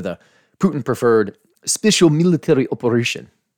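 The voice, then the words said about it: Poor put-on Russian accent. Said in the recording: “a pretty terrible Russian accent”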